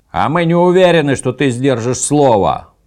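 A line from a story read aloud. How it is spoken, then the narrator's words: Shouted reply. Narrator (Russian): прокричали в ответ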